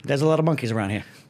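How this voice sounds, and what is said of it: Imitates another person's voice. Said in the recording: “this is my impression of Robert De Niro on the Planet of the Apes ... Midnight Run De Niro”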